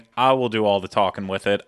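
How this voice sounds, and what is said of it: Put-on Southern drawl. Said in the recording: “I just put in a southern drawl there.”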